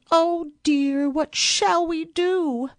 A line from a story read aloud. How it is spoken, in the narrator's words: The Chinese plate looked very blue, And wailed